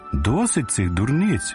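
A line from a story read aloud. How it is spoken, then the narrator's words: Impatient exclamation. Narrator (Ukrainian): вигукнув нетерпляче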